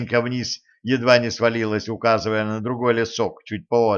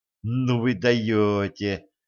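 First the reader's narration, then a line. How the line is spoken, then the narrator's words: Respectful drawl. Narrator (Russian): уважительно протянула Женька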